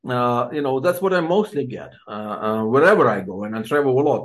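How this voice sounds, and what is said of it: Ukrainian-accented English. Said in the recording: “people would listen to my accent and they would like to find out where I'm from, and I'll say from Ukraine”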